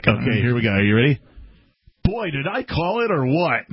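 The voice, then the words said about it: George Orwell impression. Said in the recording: “my George Orwell impression”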